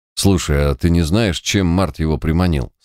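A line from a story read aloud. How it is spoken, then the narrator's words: Plain. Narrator (Russian): спросил читер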